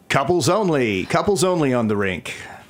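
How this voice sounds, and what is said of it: Announcer voice. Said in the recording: “special announcer voice”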